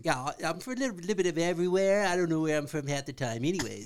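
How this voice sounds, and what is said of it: Unusual accent. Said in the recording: “That accent is very interesting.”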